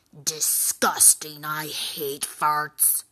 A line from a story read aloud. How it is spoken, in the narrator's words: grumbled the troll